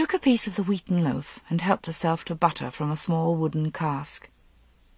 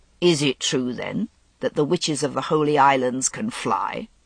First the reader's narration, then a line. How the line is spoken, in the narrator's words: Vivian chuckled